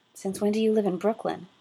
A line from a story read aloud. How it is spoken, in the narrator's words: Tony asked